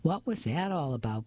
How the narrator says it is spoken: Bess asked

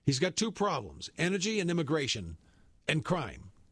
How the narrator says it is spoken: Trump said

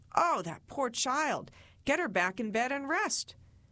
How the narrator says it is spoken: The fans' family would exclaim

